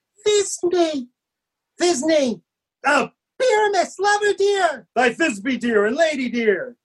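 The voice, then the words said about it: Tiny, small put-on voice. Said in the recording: “I'll speak in a monstrous little voice.”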